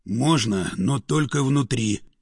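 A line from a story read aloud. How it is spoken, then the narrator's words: Big man whispering. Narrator (Russian): шепнул здоровяк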